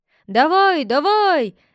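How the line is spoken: Fans shouting together. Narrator (Russian): закричали болельщики

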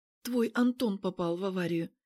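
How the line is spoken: Quiet. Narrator (Russian): тихо говорит она

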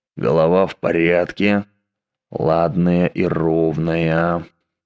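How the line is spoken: Muttering. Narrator (Russian): бормотал Дэг Доутри

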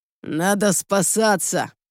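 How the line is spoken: Growl. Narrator (Russian): рыкнул Сил

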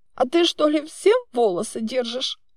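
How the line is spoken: Hoarse snapping. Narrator (Russian): хрипло огрызнулась я

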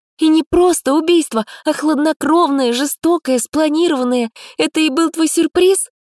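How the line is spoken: Sudden shout. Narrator (Russian): выкрикнула вдруг

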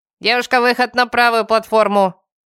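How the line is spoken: Very loud barked announcement. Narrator (Russian): Гаркнуло радио так громко

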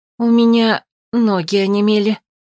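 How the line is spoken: Bewildered whisper. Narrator (Russian): растерянно прошептала беглянка

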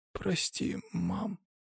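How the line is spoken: Exhausted fading mumble. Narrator (Russian): пробормотал парень, теряя сознание от истощения

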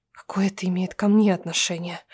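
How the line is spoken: Hoarse, voice failing. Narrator (Russian): Сиплю я, теряя голос

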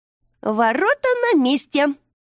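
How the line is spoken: Cheerful announcement. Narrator (Russian): весело объявила она

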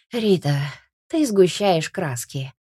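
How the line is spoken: Weary sighing father. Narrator (Russian): устало вздыхает отец

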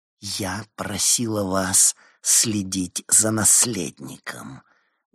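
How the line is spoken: Angry hiss. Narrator (Russian): гневно прошипела Иоланда

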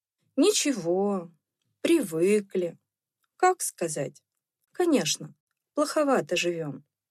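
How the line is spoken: Brief and calm. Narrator (Russian): он отзывался, кратко и спокойно

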